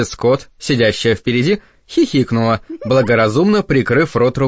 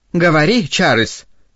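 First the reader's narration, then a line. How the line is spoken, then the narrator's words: Joyful. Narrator (Russian): радостно продолжила мисс Бёрд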